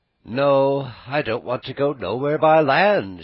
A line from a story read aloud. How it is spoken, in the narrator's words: answered gaily